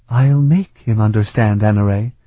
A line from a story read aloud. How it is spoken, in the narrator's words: Sophrenia replied in a bleak voice